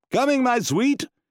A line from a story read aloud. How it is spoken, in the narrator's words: called out